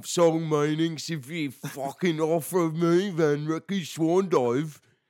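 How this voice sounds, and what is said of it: Poor put-on Australian accent. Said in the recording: “my terrible Australian accent”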